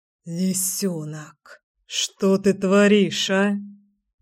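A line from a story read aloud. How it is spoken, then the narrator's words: Muttering. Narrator (Russian): пробормотал Кир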